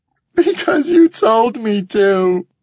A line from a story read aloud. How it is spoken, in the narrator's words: Morgan says, between sobs